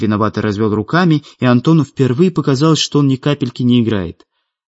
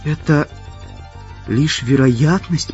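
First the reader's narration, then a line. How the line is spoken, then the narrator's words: Whisper. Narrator (Russian): прошептала Светлана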